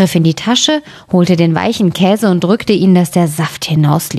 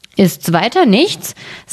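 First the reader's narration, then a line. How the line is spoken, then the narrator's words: Plain. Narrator (German): sagte das Schneiderlein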